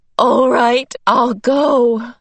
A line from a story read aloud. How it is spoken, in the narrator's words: Meg sobbed